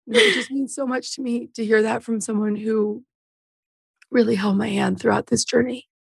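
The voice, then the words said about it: Tearful, sniffling emotional voice. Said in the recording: “You're making me cry right now. ... God, we're crying already. ... I'm going to sniffle. I'm going to cry.”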